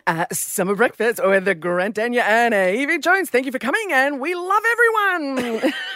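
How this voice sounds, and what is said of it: Impression of Grant Denyer. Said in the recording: “this is ... impersonation of Grant Denyer ... it needs work”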